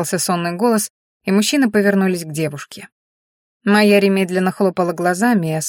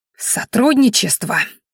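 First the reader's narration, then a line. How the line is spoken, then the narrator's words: Ringing hissed whisper. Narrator (Russian): звенящим шепотом прошипела она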